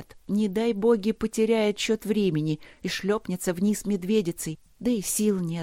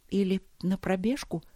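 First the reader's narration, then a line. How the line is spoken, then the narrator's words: Whisper aloud. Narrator (Russian): прошептала она вслух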